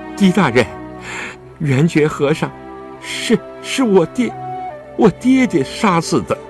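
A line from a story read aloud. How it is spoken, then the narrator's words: Tearful breathless confession. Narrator (Chinese): 周静元又滚下了两行清泪，他喘了口气，终于说出深藏在心中的秘密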